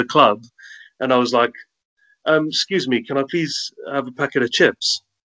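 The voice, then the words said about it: Strong South African accent. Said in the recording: “most people still think that I have a strong South African accent”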